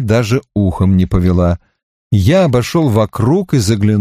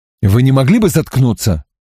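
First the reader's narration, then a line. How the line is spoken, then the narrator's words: Irritated request. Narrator (Russian): раздраженно попросил я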